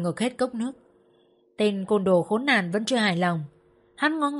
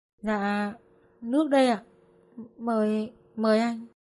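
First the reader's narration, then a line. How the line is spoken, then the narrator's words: Nervous woman. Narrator (Vietnamese): người phụ nữ hai tay run run cầm cốc nước nói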